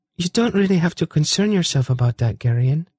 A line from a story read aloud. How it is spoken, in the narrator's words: said wistfully